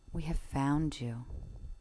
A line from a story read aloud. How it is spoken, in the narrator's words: But they whispered only